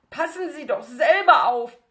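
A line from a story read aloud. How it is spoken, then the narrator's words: Shouted. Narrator (German): schrie Bruno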